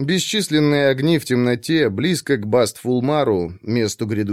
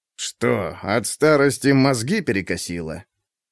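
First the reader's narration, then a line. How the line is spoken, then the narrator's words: Old man's scoffing hmph. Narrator (Russian): Старик хмыкнул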